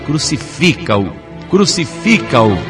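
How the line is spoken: Crowd shouting continuously. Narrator (Portuguese): a multidão continuava gritando

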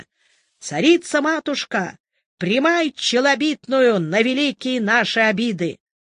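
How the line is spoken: Young serf's cheerful demanding shout. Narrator (Russian): молодой холоп крикнул весело и требовательно

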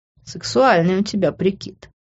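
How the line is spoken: Laughing. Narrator (Russian): рассмеялся Грант

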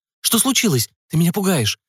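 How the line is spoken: Excited chirping over phone. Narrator (Russian): взволнованно щебетала Эмили в трубку

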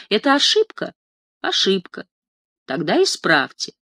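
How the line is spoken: Calm, friendly, smiling. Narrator (Russian): спокойно и доброжелательно улыбается и говорит

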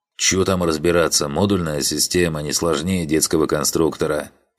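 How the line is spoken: Big man grumbling. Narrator (Russian): пробурчал здоровенный лохматый крафтер

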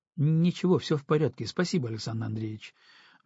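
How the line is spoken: Quick. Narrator (Russian): быстро проговорил Антон

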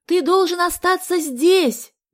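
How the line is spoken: Shouting into ear. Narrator (Russian): закричала ему Галя на ухо

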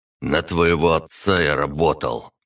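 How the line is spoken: Through gritted teeth. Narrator (Russian): процедил таксист

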